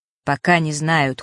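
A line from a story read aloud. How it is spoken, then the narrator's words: Cold reply. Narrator (Russian): холодно ответил Фэш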